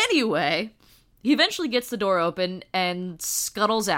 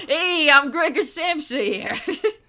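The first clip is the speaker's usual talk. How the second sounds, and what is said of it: Put-on Brooklyn accent. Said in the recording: “He has a fucking Brooklyn accent ... the Brooklyn accent probably sounds like insect nonsense to Germans”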